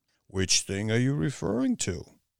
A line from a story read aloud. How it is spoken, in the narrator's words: His voice was deep and suggestive